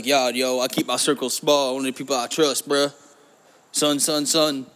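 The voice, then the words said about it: White guy imitating Black speech. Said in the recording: “That's my impression of a white guy trying to be a black guy”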